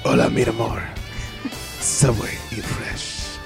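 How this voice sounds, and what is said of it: Whispered put-on European accent. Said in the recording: “I think I might go. I don't know, European. ... my whispering accent”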